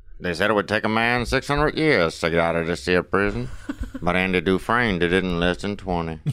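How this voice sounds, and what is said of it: Imitates another person's voice. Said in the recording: “my Morgan Freeman impersonation”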